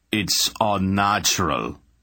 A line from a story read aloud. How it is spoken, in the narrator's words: Anheg growled, still glaring